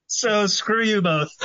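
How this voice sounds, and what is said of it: Cartoon kid character voice. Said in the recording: “it's a pretty good Cartman imitation”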